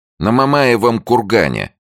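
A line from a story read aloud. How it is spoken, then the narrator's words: Snapping. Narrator (Russian): огрызнулась Ольга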